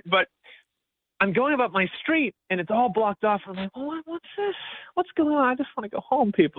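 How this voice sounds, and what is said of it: American accent. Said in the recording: “I'm the one American really around Bristol ... you definitely stick out like a sore thumb with my accent”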